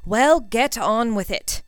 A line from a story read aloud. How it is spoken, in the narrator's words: Draco snapped